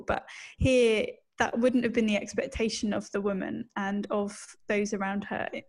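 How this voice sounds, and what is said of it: British accent. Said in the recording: “you can tell that I'm British from my accent”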